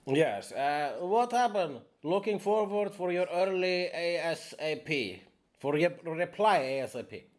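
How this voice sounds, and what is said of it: Put-on Slavic-style foreign accent. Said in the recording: “I am sorry about the accent. ... he has a Slavic name.”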